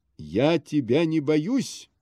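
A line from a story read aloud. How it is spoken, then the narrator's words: Shouting. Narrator (Russian): закричал он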